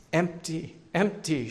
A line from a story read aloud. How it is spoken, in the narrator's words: she choked at last through her tears